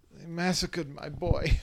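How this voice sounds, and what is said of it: Godfather movie character impression. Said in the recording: “do your famous impression ... Of your famous Godfather impression from the movie”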